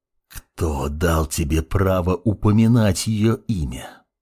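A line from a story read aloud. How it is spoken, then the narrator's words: Angry hiss, father. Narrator (Russian): прошипел подскочивший отец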